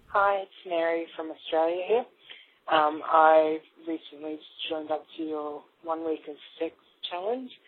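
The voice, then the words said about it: Australian accent. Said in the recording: “having an Australian on there ... maybe my accent sounds a little bit broken”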